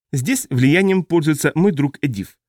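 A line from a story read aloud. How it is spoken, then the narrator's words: Plain. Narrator (Russian): сказала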